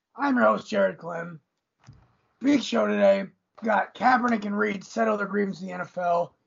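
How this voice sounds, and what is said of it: Raspy voice. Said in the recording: “raspy”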